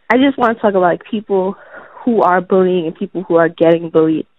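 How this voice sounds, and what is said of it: Sick, congested voice. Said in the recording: “I sound sick I'm kind of I'm getting a cold.”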